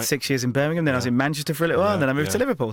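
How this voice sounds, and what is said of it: Mixed southern English and northern accent. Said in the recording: “they think I'm Australian ... I'm now saying words like chance and grass and brass the northern way ... you mix that with the southern accent and it's kind of a strange accent”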